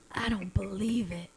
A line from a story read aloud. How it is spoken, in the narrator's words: he whispered